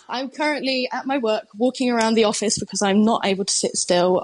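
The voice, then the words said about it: Very fast speech. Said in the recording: “I'm talking really fast”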